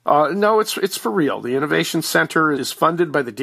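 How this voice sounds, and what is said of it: Usual voice. Nothing is said of it.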